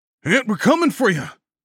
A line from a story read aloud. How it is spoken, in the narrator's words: someone yelled